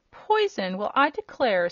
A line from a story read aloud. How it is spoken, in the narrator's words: said Billina indignantly